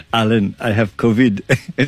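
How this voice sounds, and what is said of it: Imitates another person's accent. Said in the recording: “I'm doing your accent.”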